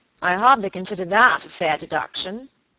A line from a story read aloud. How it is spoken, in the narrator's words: he said